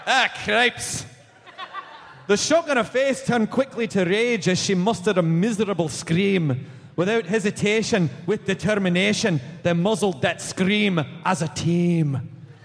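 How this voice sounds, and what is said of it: Put-on Scottish accent. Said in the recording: “Read it to the children in a Scottish accent.”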